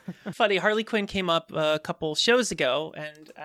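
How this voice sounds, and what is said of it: Usual voice. Nothing is said of it.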